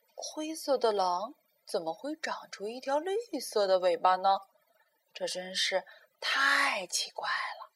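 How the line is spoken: Muttering. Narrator (Chinese): 他嘀嘀咕咕道

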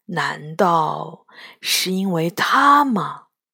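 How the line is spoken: Low dazed murmur. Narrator (Chinese): 呆呆地望着天空中又大又圆的月亮，低声说

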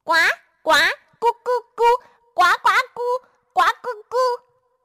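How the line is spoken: Croaking hard. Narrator (Chinese): 小青蛙使劲儿的叫着

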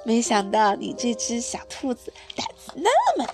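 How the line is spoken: Laughing. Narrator (Chinese): 阿迪也笑着说

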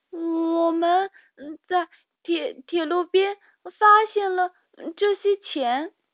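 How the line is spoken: Stammering. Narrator (Chinese): 米莉结结巴巴地说

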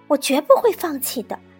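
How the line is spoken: Mocking. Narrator (Chinese): 对着摔倒的苏菲亚嘲笑道

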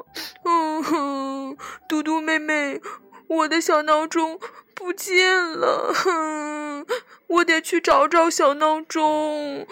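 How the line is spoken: Crying while speaking. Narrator (Chinese): 他边哭边说

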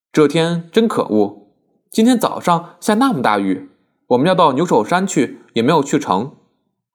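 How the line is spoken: Laughing. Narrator (Chinese): 舒慧笑道

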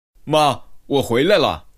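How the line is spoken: Calling out. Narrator (Chinese): 科顿叫了一声

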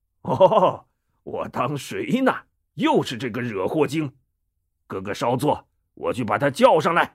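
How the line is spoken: Laughing. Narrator (Chinese): 戴宗笑了

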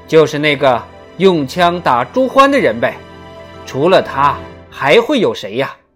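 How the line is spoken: Sailor shouting. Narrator (Chinese): 水手喊道

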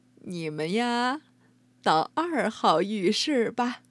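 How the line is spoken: Smiling warmly. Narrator (Chinese): 秋婆婆笑眯眯地说

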